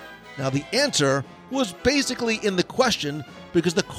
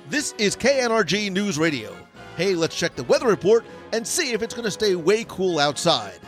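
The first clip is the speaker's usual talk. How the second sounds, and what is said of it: Radio announcer voice. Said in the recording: “I'm doing somewhat of radio voice”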